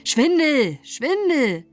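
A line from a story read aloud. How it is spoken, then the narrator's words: Loud, agitated repeated shouting. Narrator (German): waren sehr aufgebracht und riefen immerfort so laut sie konnten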